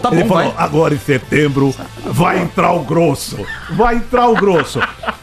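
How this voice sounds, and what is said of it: Imitates another person's voice. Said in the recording (Portuguese): “eu não sei imitar o Lula ... Mas você vai ver o vídeo, que é melhor que minha imitação.”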